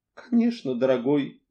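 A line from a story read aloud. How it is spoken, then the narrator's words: Tender. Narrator (Russian): нежно сказала миссис Ривз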